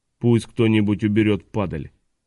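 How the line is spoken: Cold command. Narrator (Russian): Хардкастл холодно приказал

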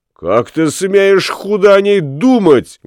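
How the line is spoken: Exclaimed. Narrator (Russian): воскликнул Ламме

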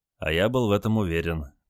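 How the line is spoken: Quiet reply. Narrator (Russian): также тихо ответил Олег

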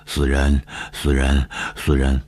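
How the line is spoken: Panting, sinister muttering. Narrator (Chinese): 夏雨喘着粗气狞笑，嘴里嘟囔着说

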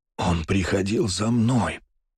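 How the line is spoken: Wounded hoarse wheeze. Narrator (Russian): прохрипел Столбов, потому как из-за раны и перевязки ему было неудобно говорить

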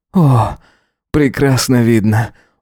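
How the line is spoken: Breathed out. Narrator (Russian): выдохнул он

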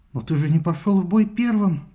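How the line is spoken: Trembling question. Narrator (Russian): дрожащим голосом спросила она

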